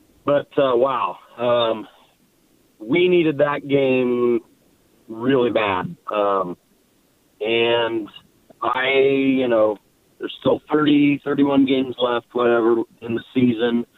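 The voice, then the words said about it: Hoarse, rough voice. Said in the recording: “You may or may not be able to tell. I'm hoarse, so may not come through real clear. I'm glad I'm hoarse”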